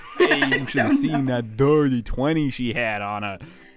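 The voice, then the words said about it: Bad put-on Brooklyn/Chicago accent. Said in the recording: “Why are we all in Brooklyn? ... is this even Brooklyn? What accent are we doing here? ... You're doing like Chicago Bob. ... It's awful.”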